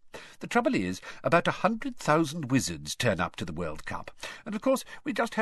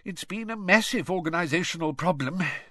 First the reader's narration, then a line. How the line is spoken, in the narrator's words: sighed Mr